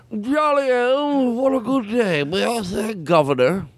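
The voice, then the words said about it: Put-on British accent. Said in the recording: “he had a weird British accent ... That's why he talks like this now.”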